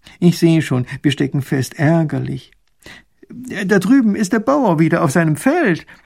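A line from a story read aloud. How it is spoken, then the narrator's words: Old coachman whining. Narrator (German): jammert der alte Kutscher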